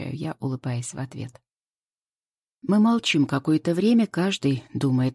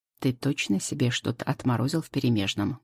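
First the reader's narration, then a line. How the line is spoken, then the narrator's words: Plain. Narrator (Russian): говорит Миша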